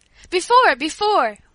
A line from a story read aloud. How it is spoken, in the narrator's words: we all cried